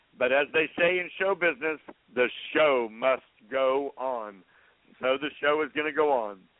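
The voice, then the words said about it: Hoarse, failing voice. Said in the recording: “I'm in the process of losing my voice.”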